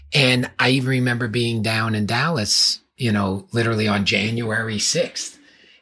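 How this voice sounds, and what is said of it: New York accent. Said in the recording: “where I grew up in New York, and I'm sure everyone can hear from my accent”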